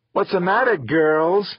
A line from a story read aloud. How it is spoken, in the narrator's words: Nico asked, laughing